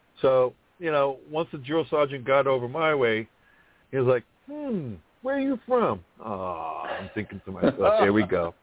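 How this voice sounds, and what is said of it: Thick New York accent. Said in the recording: “I have a thick accent ... New York, drill sergeant ... New York City”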